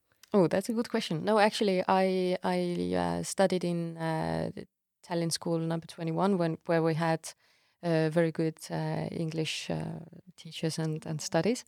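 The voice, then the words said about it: British English accent. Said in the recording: “how come you have such a British accent?”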